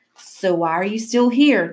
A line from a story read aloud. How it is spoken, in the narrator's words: Davenport said to me angrily